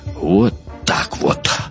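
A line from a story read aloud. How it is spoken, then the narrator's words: Exhaled. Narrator (Russian): выдохнул Стюжин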